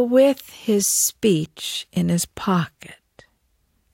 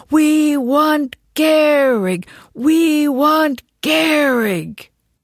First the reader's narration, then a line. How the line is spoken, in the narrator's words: the fans insisted, roaring